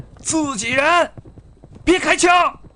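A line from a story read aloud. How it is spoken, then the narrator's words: Shouting in Chinese. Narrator (Chinese): 黑暗中他们用汉语喊着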